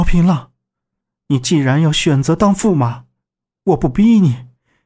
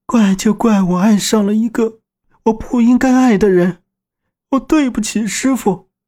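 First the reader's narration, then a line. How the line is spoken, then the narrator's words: Crying. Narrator (Chinese): 南宫子月哭道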